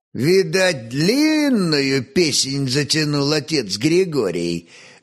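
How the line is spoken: Good-natured chuckle. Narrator (Russian): беззлобно хохотнул просмоленный кормщик

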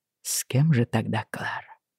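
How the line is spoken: Whispering man. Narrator (Russian): прошептал он

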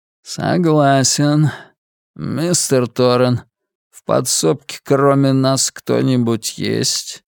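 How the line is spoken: Calm and polite. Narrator (Russian): Голос по-прежнему звучал спокойно и вежливо

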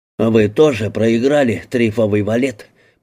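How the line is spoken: Growling. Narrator (Russian): прорычал он

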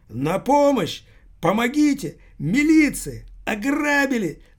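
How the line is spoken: Loud shout. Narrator (Russian): закричал паспорт тюремный на всю улицу

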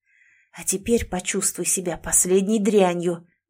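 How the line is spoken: Hissing through teeth. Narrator (Russian): прошипел сквозь зубы Сэм

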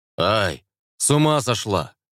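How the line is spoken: Loud bark. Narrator (Russian): гаркнул жнец

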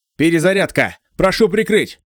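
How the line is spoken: Breathless shout. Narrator (Russian): тяжело дыша крикнул Сео

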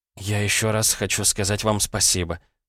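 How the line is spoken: Mumble. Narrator (Russian): пробормотала Ирина

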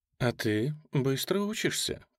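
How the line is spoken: Breathless. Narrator (Russian): произнесла фон Хойзере, переводя дух

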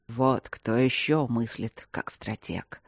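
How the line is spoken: Dragon muttering. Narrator (Russian): пробормотал дракон

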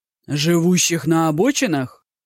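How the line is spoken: Indignant exclamation. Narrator (Russian): негодующе воскликнул Мажун

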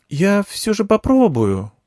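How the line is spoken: Uncertain girl's voice. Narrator (Russian): неуверенно сказала девочка

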